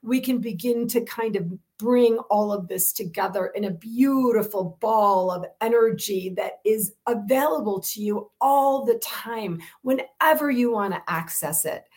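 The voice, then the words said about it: Excited voice, rising pitch. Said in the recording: “I hear myself getting excited, my voice is rising up”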